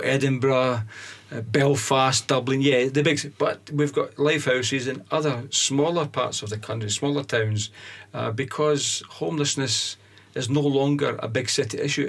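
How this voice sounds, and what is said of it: Strong Scottish accent. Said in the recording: “this accent's very, very Scottish”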